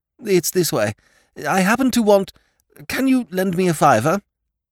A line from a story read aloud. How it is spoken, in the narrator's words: said eagerly